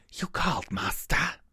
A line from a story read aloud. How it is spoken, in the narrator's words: Hashimisa hissed